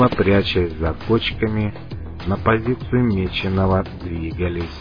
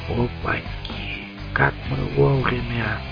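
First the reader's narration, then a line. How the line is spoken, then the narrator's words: Whisper in ear. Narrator (Russian): прошептал мне на ухо Клык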